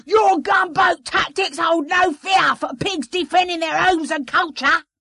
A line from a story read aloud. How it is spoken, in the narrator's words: The pig shouted back